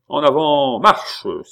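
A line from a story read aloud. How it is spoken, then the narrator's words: Exclaiming. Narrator (French): s'écria Pitou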